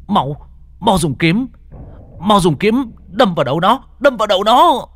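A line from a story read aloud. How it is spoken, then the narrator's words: Shout. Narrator (Vietnamese): Lục Hải hét lên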